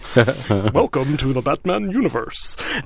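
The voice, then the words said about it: Poor imitation of another person's voice. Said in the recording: “it sounds nothing like it ... No, it's terrible. Where did my Weldon voice go? ... Terrible.”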